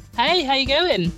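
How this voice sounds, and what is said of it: London English accent. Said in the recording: “all the way from London, England, where you probably picked up on her accent”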